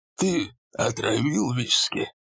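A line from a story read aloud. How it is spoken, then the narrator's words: Old man's voice. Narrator (Russian): Хорнер спрашивал стариковским голосом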